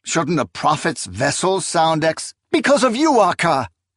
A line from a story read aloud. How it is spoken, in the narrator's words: She cried with alarming ferocity